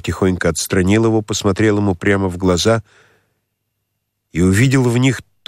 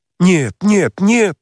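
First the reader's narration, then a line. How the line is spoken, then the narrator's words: Horrified exclamation. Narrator (Russian): воскликнул царевич с таким ужасом в лице и в голосе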